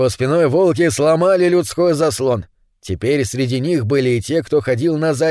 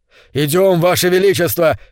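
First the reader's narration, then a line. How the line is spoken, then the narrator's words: Shouting. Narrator (Russian): кричал он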